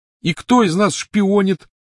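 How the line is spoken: Shout. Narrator (Russian): закричал он

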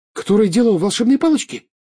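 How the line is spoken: Frightened question. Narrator (Russian): испуганно спросила Джинни

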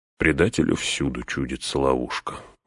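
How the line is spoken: Tired reply. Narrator (Russian): устало отвечал Гэндальф

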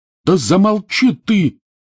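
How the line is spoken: Yelling. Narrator (Russian): заорал Рон

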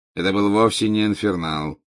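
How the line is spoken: Bored interruption. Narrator (Russian): скучающим голосом прервал его Снег

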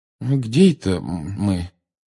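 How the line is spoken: Bewildered question. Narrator (Russian): растерянно спросил мистер Уизли

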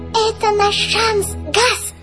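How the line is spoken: Squeaky. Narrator (Russian): пропищал Жак

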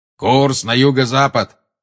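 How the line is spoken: Thundering. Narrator (Russian): прогремел Грюм

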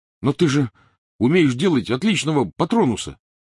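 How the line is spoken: Protesting exclamation. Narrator (Russian): протестующе воскликнул Рон

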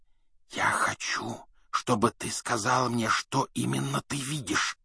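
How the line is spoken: Whisper. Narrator (Russian): прошептал Гарри

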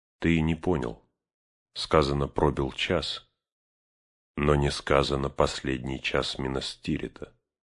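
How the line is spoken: Calm explanation. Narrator (Russian): спокойно объяснил Барамиру Арагорн

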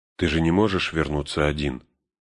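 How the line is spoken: Calm reminder. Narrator (Russian): спокойно напомнила Сэму Галадриэль

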